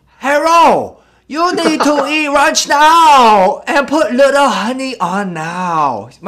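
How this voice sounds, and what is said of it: Mock stereotyped Asian accent. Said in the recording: “Asian accent... the way I make fun of the Asian accent is basically I do a mimic of that”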